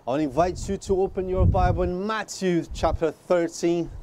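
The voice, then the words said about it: Speaks with a noticeable accent. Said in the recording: “my beautiful accent”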